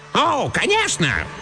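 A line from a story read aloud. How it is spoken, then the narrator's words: Shrill unfamiliar voice below. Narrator (Russian): визгнул внизу чужой голос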